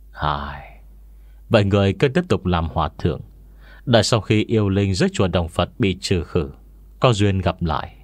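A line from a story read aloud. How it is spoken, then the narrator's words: Sighing softly. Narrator (Vietnamese): Nam nhân tóc bạc khẽ thở dài, nói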